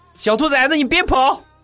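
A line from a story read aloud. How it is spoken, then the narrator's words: Shouted. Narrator (Chinese): 地雷大喊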